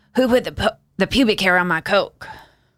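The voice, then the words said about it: Impression of Clarence Thomas. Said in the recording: “Is that what he sounds like? ... Is that your line? Clarence Thomas right there? ... your Clarence Thomas voice”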